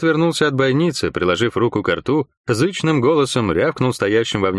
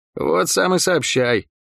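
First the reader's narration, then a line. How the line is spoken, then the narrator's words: Muttering. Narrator (Russian): пробормотал Лук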